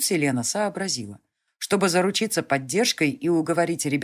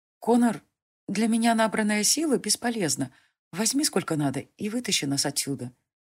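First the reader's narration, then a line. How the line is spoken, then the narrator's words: Quiet offer. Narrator (Russian): тихо предложила девушка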